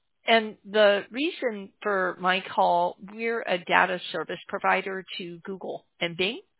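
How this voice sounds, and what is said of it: Hoarse voice that cracks. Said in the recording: “I'm losing my voice. I'm sorry if it cracks on you.”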